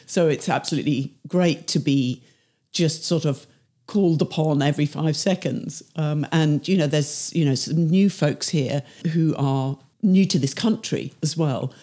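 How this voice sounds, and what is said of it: Non-native English accent. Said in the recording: “As you can hear, I'm not a native”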